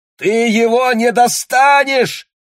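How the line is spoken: Shouting. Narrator (Russian): кричал Боб

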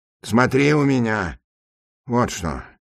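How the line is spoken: Fairly quiet. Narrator (Russian): добавил он довольно тихо

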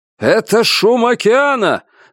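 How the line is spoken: Shouting over loud roar. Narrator (Russian): закричал отец, перекрывая рокот

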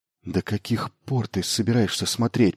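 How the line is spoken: Whispered. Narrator (Russian): прошептал Майлз

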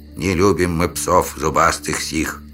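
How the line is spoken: Grim grumbling from above. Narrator (Russian): мрачно проворчали родственники двумя ветками выше

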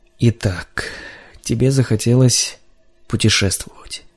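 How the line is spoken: Muttered through teeth. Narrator (Russian): бормотал он сквозь зубы

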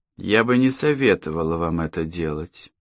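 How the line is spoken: Soft, gentle. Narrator (Russian): мягко произнесла Алла

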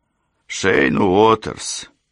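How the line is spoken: Snorting grunt. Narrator (Russian): хмыкнул Милс

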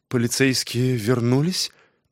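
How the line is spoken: Anxious quiet question. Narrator (Russian): Встревоженно вздохнув, Лора тихо спросила

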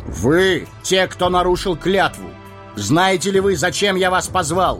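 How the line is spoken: Booming raised voice. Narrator (Russian): Арагорн возвысив голос, прогремел

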